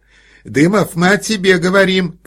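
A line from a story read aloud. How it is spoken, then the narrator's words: Shout. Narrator (Russian): крикнула она мужу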